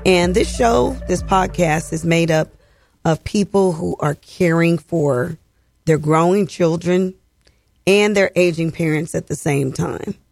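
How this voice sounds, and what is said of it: Slightly hoarse voice. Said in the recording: “I'm a little bit hoarse”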